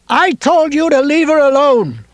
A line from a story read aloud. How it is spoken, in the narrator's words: Ralph shouted down the hill